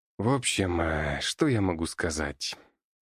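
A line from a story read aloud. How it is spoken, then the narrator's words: Said after long thought. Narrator (Russian): произнес врач после еще 10 минут раздумий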